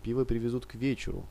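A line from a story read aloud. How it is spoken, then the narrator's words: Plain. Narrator (Russian): ответила женщина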